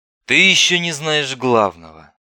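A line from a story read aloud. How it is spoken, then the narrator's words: Tired speech. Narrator (Russian): произнес Остапенко устало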